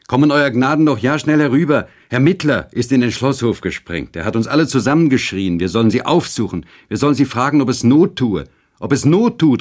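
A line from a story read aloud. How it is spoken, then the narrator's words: Calling after them. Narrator (German): rief uns nach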